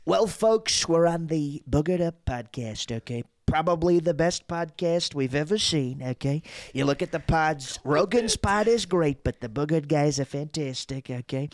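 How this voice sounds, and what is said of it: Donald Trump impression. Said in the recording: “political impressions, like obviously Trump is probably my biggest impression.”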